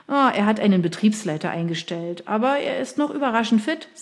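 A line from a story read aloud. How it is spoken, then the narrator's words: Plain. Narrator (German): sagte Henry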